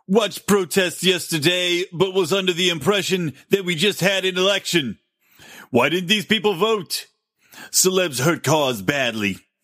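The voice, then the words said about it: Imitates another person's voice, poorly. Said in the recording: “I'll do this in a better accent... that's the worst impression”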